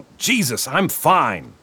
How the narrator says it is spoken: Marlin shouted

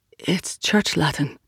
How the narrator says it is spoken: she murmured

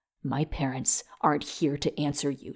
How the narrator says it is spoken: she spat

